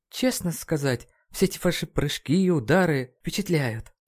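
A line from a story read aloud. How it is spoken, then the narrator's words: Sighing mutter. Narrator (Russian): вздохнув, пробормотала МДЖ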